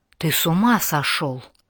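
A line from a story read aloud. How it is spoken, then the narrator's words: Hissing. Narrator (Russian): прошипела она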